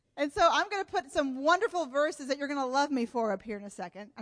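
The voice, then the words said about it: Sarcastic delivery. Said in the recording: “And I'm being sarcastic.”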